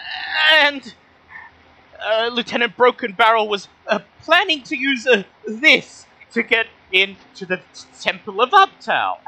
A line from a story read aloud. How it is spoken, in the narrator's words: the nervous shopkeeper chuckles and he says